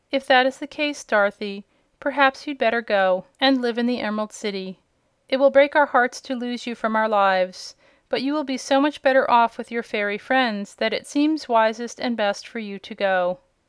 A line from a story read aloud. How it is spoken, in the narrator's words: Aunt Em said, with another sigh of regret